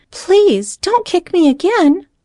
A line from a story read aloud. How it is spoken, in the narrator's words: pleaded